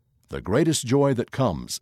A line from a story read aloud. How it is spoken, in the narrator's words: says Elder Renland